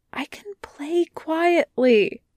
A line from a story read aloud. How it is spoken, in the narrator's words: Wei Wuxian whispers